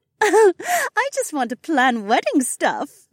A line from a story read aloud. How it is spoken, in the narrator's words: Becca laughed